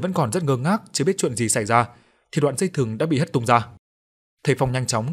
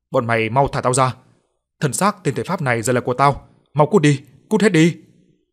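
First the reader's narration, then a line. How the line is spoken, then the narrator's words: Enraged ceaseless howling. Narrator (Vietnamese): Ánh mắt tràn ngập giận dữ, miệng không ngừng gào lên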